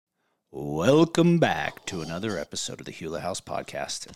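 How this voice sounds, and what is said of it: Deep radio announcer voice. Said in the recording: “Really good at my radio voice. ... which helped my voice go deeper.”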